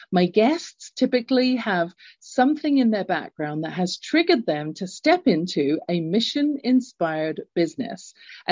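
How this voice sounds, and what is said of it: English accent. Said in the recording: “I grew up in England. You can tell from my accent.”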